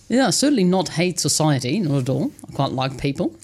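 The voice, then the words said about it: Dutch accent. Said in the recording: “You're obviously not a Kiwi native from your accent, from the Netherlands?”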